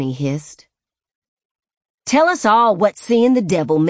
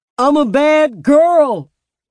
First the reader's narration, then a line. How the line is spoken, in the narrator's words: Matthew screamed